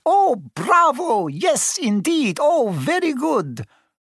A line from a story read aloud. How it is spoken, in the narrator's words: Ollivander cried